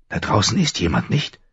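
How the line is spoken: Whispered, male. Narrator (German): flüsterte er

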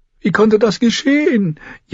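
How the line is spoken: Repeated wailing. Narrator (German): jammerte Sir Harris Swift erneut

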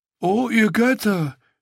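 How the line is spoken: Groaning. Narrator (German): stöhnte Reznak

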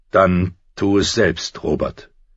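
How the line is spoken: Cold, steely shout. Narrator (German): rief er mit einer Stimme, die kalt und scharf wie Stahl war

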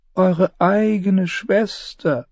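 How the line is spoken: Sad, near-tearful reply. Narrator (German): antwortete Varys und schaute dabei so traurig drein, als würden ihm im nächsten Moment die Tränen kommen

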